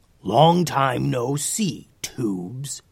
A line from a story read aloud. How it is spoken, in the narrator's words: growled